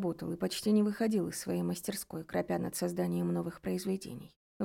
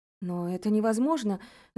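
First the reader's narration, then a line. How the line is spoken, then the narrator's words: Stammering, trembling girl's voice. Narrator (Russian): запинаясь и дрожащим голосом, произнесла девушка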